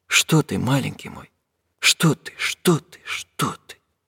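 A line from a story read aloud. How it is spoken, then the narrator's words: Mumbling. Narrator (Russian): бормотал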